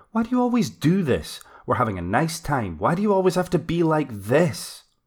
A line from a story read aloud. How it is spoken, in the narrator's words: snapped Sue